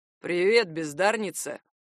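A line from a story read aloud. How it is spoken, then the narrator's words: Booming. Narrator (Russian): прогудел он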